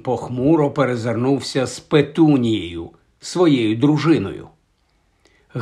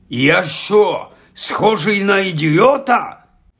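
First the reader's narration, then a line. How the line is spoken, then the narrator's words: Angry bark. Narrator (Ukrainian): Гаркнув дядько Вернон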